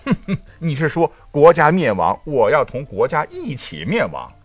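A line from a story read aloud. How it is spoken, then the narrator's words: Cold sneer. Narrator (Chinese): 桀…脸色一沉，冷笑道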